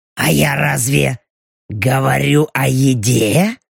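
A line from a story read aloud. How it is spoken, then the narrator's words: Purring. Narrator (Russian): Мурлыкнула белочка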